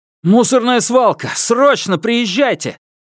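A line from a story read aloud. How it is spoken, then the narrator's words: Hurried shout into phone. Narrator (Russian): Лишь успел крикнуть Ван Юньпин в трубку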